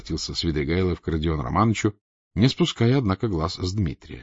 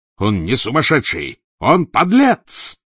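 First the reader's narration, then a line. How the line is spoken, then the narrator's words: Roar. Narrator (Russian): взревел Дмитрий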